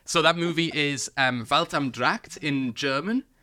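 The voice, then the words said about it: Bad put-on German accent. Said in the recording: “very good accent there ... being able to speak words in a bad German accent”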